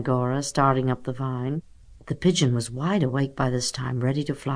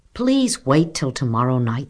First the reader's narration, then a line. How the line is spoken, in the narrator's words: said Snowbell firmly